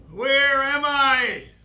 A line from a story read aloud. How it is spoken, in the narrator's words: yelled